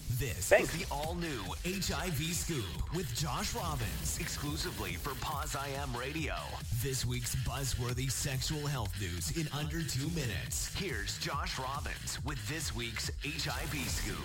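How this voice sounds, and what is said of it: Dramatic announcer voice. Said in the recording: “Don't y'all love that announcer voice?”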